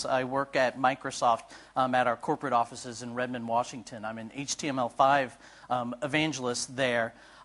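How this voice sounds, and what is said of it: American English accent. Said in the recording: “As you might recognize from my accent, I'm from the United States.”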